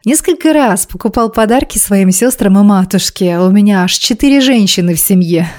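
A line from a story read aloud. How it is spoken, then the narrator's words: Laughing. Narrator (Russian): снова рассмеялся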